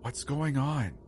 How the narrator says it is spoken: Rachel whispered

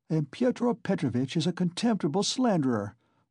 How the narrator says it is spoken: Dounia snapped out suddenly

